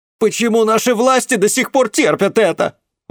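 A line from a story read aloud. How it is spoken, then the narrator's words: Indignant shout. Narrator (Russian): возмущенно крикнул кто-то из пассажиров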